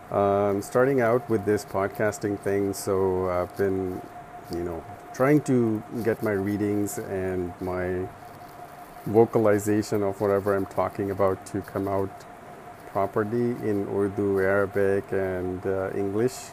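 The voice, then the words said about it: Unwell, slightly impaired voice. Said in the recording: “I'm feeling a little bit under the weather still, so my voice is not as good as it could be.”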